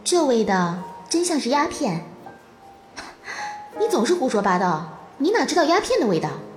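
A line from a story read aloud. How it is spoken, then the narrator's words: Laughing. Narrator (Chinese): 他笑了，说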